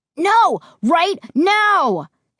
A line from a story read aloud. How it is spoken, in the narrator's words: Josh screamed